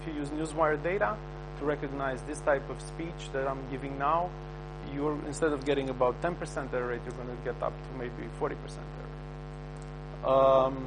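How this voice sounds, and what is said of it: Strong non-native English accent. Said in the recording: “I have a pretty strong accent. My speaking style is very far from that of a native speaker.”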